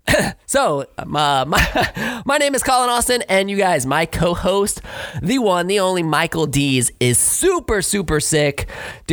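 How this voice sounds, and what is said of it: Scratchy, slightly hoarse voice. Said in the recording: “That's a weird whoa because of my voice ... I'm not feeling too hot either right now. My voice is a little scratchy ... if I'm, like, clearing my throat”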